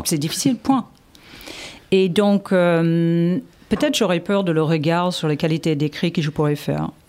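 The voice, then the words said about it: Noticeable foreign accent in French. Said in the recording (French): “j'ai quand même je crois que j'ai un accent ... dès que je dis bonjour”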